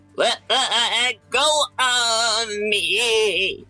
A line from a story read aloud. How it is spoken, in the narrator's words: Southpaw shouted as his voice warbled comically as he spun faster and faster